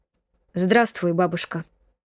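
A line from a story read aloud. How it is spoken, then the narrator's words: Cold reply. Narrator (Russian): холодно ответил Власов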